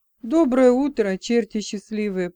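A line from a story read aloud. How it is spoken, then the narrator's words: Booming voice. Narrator (Russian): прогудел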